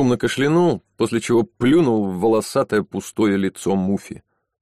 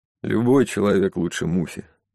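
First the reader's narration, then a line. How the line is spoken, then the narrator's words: Gloomy remark. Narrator (Russian): мрачно заметил другой полицейский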